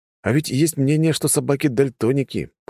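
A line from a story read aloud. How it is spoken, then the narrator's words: Grumbled. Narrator (Russian): пробурчал я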